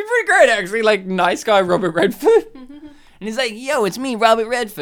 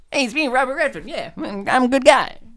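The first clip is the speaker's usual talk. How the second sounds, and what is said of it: Imitates another person's voice. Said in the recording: “That's how he sounds. I've nailed that impersonation down. I've worked on that for years.”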